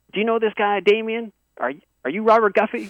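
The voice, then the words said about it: Thick put-on Southern accent. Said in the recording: “these two guys with this like thick kind of southern accent.”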